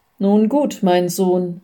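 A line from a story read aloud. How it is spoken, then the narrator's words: Plain. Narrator (German): sagte der Priester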